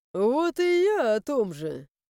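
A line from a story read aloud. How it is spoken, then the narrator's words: Snorting. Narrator (Russian): хмыкнул Лоран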